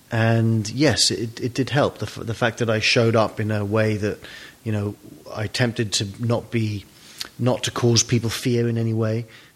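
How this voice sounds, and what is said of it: English accent. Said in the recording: “it definitely helped my English accent ... It's amazing how much you can get away with with an English accent”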